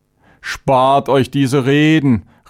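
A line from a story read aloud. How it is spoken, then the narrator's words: Angry outburst. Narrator (German): rief Chavenes aufbrausend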